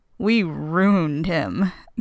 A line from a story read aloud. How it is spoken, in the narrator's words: Cam says fake mournfully